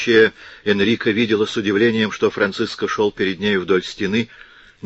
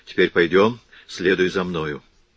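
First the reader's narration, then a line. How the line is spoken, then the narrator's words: Hurried and quiet. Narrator (Russian): Он проговорил торопливо и тихо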